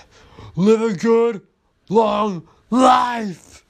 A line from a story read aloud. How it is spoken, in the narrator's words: he yelled